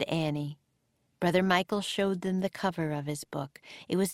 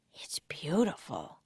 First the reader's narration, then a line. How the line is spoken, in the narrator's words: whispered Jack